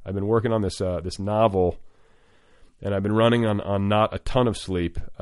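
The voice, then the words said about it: Tired, worn-out voice. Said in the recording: “hear it in my voice, but I'm a little fried. I'm a little tired.”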